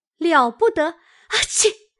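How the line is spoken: Laughing. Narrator (Chinese): 晴雯笑道

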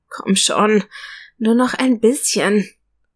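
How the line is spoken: Pleading. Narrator (German): flehte an

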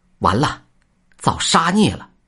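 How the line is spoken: Young Taoist shouting. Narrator (Chinese): 小道士大叫道

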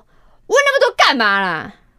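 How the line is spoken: Tired, irritable. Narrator (Chinese): 同事又跟我说，他因为太累，所以脾气不好

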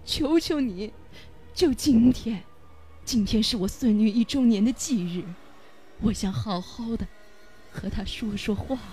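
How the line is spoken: Old woman sobbing. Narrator (Chinese): 老婆婆哭着 … 一边抢一边哭

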